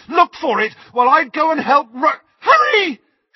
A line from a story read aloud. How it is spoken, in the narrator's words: she screamed